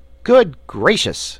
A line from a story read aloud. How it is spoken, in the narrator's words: exclaimed Button-Bright